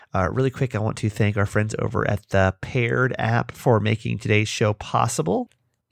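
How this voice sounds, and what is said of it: Slightly off, not fully recovered voice. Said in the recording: “My voice is still kind of meh after being sick”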